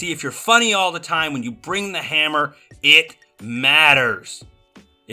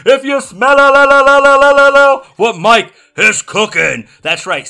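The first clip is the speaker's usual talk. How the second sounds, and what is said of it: Imitates another person's voice. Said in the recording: “my bad rock impersonation”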